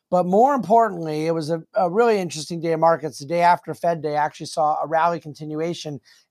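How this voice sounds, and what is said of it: Slightly hoarse voice. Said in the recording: “my voice sounds a little bit hoarse ... perhaps my voice got a little use”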